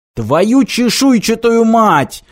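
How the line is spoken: Yell. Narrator (Russian): завопил Мартин

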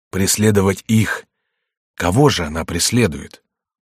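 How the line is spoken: Quiet, fearful. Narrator (Russian): Оба инстинктивно говорили тихо, им как будто страшно было слушать друг друга

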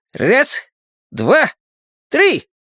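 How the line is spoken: Joyful group yelling. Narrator (Russian): Вопим, дружно и с удовольствием, сбрасывая напряжение от спуска

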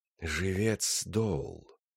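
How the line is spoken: Near whisper. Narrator (Russian): сказал, наконец, новоприбывший голосом, близким к шепоту

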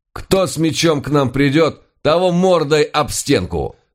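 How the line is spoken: Loud shout. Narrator (Russian): Громко выкрикнул я

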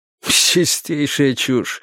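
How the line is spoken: Snorting. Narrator (Russian): фыркнул учитель

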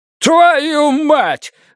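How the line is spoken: Yelling. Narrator (Russian): заорал Ханс Гуннер

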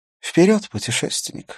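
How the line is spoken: Laughing. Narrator (Russian): засмеялась она

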